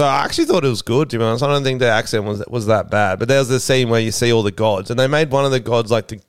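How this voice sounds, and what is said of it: Usual voice. Nothing is said of it.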